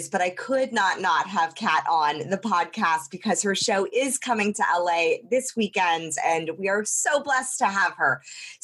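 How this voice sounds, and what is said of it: Lower, hoarse voice. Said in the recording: “my voice is a little lower um, I am getting over laryngitis”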